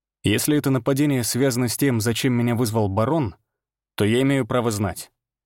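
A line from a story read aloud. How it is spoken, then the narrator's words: Said coldly. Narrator (Russian): холодно произнес я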